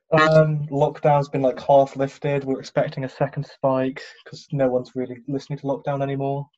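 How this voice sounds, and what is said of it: British accent. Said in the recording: “UK. I heard that accent.”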